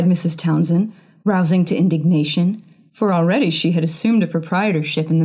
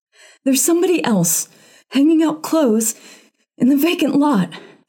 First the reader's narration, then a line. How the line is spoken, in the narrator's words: she gasped